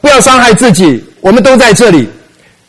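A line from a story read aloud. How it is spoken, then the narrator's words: Loud calling out. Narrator (Chinese): 保罗大声呼叫说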